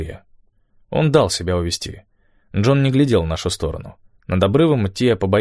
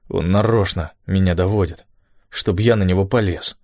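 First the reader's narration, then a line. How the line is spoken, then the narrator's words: Forced calm voice. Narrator (Russian): сказал он натужно спокойным голосом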